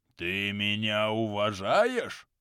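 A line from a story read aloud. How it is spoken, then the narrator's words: Menacing question. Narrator (Russian): грозно спросил у него Харальд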